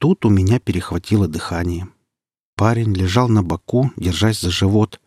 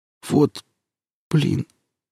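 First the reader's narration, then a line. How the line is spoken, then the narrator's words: Barely audible dying rasp. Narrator (Russian): едва слышно прохрипел синеющими губами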